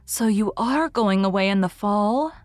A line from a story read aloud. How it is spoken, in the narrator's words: said Miss Lavender wistfully